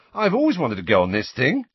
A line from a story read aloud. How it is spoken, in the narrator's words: said Ron happily